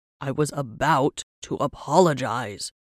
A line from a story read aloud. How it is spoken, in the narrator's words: he groaned